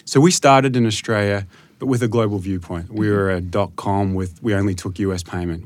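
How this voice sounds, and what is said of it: Australian accent. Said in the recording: “you operate in Australia ... I noticed that from your accent.”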